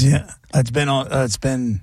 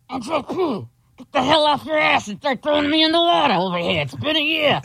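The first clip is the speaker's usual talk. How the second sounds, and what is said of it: Imitates another person's voice. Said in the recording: “my impression of JP's dad in the coffee can in the closet”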